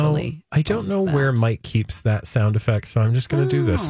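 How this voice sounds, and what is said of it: Usual voice. Nothing is said of it.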